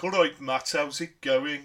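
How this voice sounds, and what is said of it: Put-on Brummie accent. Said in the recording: “the Brummy accent ... You don't have a deep... You're not like”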